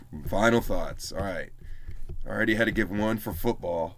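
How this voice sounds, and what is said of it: Tired, failing voice. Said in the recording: “my voice is slowly giving up”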